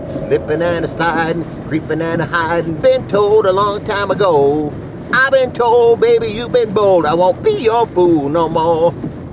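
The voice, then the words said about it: Imitates another person's singing voice. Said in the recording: “my Little Richard imitation”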